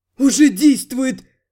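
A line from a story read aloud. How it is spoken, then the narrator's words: Amazed, delighted exhale. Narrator (Russian): Удивленно и восторженно выдохнул Гектор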